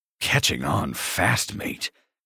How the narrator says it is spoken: I snarl

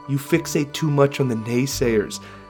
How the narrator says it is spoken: Delicosa sighed

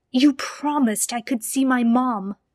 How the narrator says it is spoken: he shouted at Michael

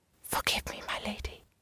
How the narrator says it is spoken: in barely more than a whisper said

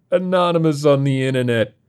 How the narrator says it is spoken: Sal mocks him

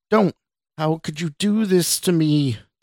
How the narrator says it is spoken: the woman asked again, this time in a scream so loud that it hurt Scott's ears

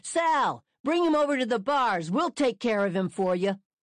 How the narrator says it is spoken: They're yelling

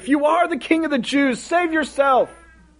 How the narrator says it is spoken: they called out

